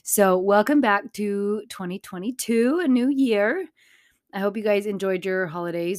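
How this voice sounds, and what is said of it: Sick voice cutting in and out. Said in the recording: “I got super duper sick. So you're going to hear my voice going in and out ... my voice is back”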